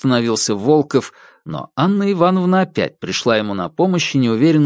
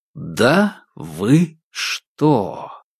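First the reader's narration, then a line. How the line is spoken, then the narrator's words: Drawn out, word by word. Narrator (Russian): протянул Корсаков, выговаривая каждое слово будто бы отдельно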